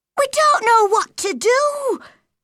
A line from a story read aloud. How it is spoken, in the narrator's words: she cried